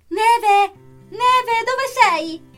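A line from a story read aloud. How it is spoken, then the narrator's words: Distant desperate yell. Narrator (Italian): si è sentito urlare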